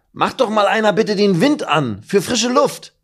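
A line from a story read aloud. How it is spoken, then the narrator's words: Calling out. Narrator (German): ruft Meffo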